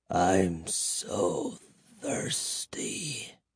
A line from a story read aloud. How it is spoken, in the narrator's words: moaned in a hoarse whisper